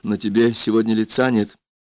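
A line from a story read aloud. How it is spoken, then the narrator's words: Quiet. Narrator (Russian): Лена тихо сказала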